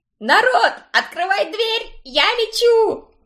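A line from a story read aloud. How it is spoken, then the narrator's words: Shrieked. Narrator (Russian): Взвизгнула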